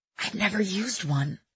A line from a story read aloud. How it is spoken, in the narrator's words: I whispered